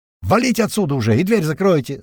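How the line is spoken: Yelling. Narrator (Russian): заорал Бата

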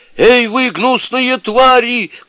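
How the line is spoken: Shouting. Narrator (Russian): кричал он

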